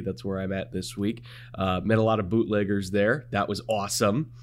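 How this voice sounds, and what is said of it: Partly lost, strained voice. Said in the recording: “you might be able to hear it in my voice. I, I, I, lost a little bit of it last night”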